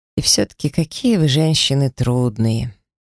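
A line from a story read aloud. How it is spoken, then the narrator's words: Heavy sigh, young man. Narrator (Russian): тяжело вздохнул парень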